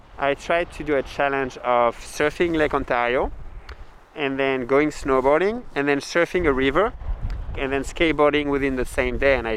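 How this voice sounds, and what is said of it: Non-local accent. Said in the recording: “You can probably tell by the accent.”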